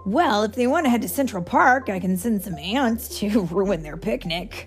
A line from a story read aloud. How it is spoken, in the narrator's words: Ant-Man said sarcastically